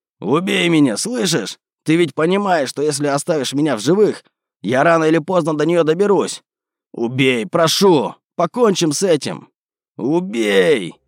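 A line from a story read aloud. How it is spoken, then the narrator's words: Frantic screaming. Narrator (Russian): кричал обезумевший Петр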